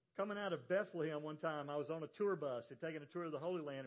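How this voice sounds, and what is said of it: Southern US accent. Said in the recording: “I'm from the South ... I love your accent ... This is the way people from South Carolina and Georgia and North Carolina, Virginia, this area, this is the way we talk”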